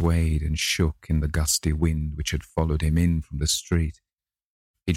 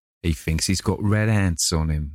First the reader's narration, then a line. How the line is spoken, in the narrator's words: laughed one of them